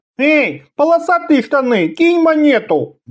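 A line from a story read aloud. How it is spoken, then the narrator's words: Nasal whine. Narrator (Russian): гнусавил он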